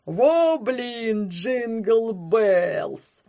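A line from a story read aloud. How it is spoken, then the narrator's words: Grumbled. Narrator (Russian): буркнул он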